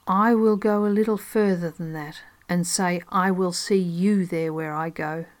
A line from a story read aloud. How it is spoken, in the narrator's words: calmly and firmly telling the judge